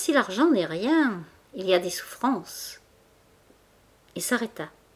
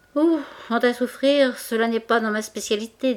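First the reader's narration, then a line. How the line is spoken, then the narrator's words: Bravado. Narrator (French): dit Mouret d'un ton de bravade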